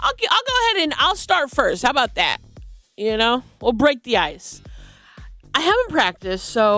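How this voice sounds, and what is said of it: Usual voice. Nothing is said of it.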